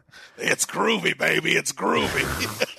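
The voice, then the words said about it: Vince McMahon doing Austin Powers. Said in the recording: “Your impression of Vince doing Austin Powers”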